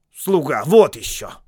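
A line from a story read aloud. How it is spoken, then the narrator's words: Indignant snort. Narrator (Russian): в негодовании фыркнул Бильбо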